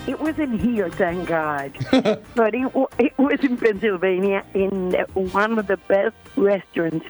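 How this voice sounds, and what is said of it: Puerto Rican accent. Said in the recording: “You're going to love her accent. She's from Puerto Rico.”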